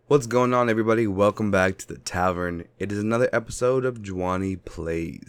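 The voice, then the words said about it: Nasal, sick-sounding voice. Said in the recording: “I sound nasally? Do I sound sick? ... I'm sick again”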